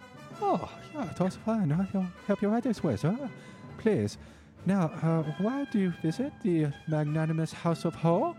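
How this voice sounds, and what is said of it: Exaggerated put-on character accent. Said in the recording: “Easily ... most problematic accent. ... Why does it sound like Eric from South Park?”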